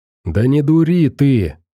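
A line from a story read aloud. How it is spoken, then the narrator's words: Nervous exclamation. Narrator (Russian): нервно воскликнул Шуруп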